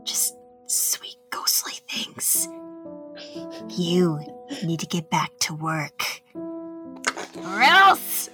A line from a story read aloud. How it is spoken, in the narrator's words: invisibly, I went up to his ear and started whispering